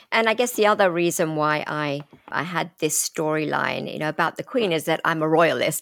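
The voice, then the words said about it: British accent. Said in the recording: “your accent ... a certain little bit of Britain flair”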